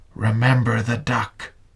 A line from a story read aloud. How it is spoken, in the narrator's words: She whispered again